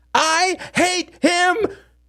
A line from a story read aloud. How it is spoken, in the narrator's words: screamed Samuel